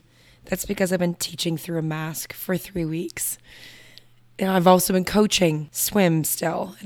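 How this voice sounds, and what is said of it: Hoarse, partly lost voice. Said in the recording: “You might notice that my voice is a little bit gone.”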